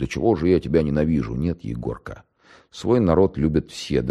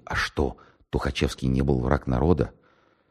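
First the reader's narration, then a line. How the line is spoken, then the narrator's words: Whispered question. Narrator (Russian): Лейтенант шепотом спросил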